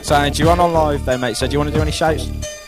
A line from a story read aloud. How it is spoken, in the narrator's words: Just shouted to Callum and Anne